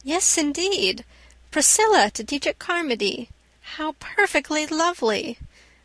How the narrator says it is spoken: exclaimed Anne

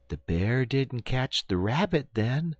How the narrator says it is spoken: inquired the little boy sleepily

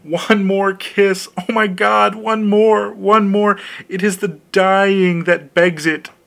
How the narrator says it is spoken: she cried

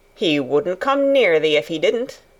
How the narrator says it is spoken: answered Dickon

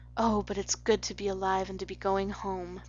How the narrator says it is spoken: breathed Anne

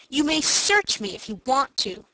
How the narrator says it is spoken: said Dick indignantly

